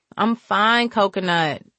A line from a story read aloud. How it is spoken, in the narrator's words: she sighed